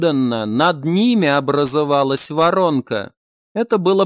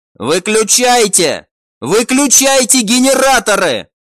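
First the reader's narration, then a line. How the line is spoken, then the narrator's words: Shouting. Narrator (Russian): прокричал глава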